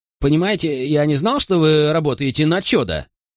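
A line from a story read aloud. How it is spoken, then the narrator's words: Babbling barker. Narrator (Russian): лепетал зазывало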